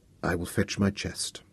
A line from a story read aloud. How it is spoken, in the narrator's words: in acquiescence and whispered